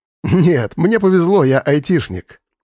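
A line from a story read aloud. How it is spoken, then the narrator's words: Laughing. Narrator (Russian): засмеялся Вадим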